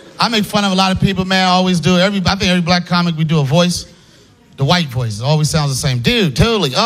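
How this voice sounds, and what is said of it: Usual voice. Nothing is said of it.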